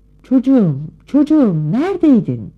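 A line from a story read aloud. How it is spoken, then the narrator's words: Shouting. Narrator (Turkish): diye bağırdı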